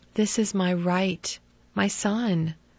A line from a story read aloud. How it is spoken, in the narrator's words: she whispered softly